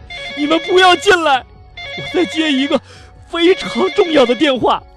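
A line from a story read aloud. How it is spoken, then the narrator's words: Frightened shout. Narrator (Chinese): 这西姆啊，吓得赶紧喊道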